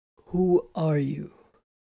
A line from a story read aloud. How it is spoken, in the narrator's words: Titus asked hoarsely